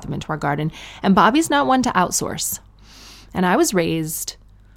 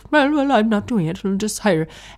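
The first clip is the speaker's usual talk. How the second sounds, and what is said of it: Irish accent imitating her father. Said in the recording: “if you think that's a bad Irish accent, it's not a bad Irish accent. It's my dad's Irish accent after he's lived in Canada since he was 8”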